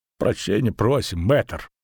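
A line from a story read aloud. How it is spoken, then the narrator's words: Barely audible mutter. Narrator (Russian): пробормотал он еле слышно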